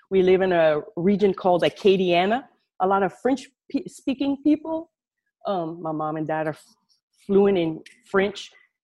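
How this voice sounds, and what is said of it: Southern Louisiana accent. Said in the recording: “down south in Louisiana, way down south in Louisiana. I'm sure you can tell through my accent ... if you detect an accent”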